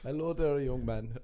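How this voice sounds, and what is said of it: Put-on African Irish accent. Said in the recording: “Do a black, African, ... Irish accent.”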